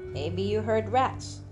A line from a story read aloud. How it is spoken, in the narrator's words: said